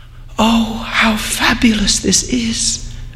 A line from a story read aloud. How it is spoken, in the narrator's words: Aminta murmured